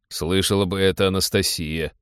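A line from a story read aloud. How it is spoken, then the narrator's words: Amused snort. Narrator (Russian): хмыкнул Теодор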